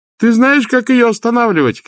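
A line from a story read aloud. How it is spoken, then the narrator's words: Shouted. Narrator (Russian): крикнул Лапсанг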